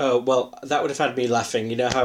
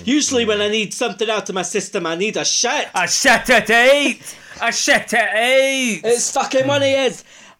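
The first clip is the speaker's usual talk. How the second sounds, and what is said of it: Put-on Scottish accent. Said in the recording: “she can do in a Scottish accent”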